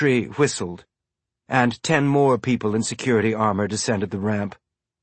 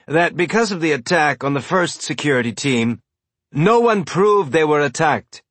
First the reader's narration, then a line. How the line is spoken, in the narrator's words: someone shouted from the crowd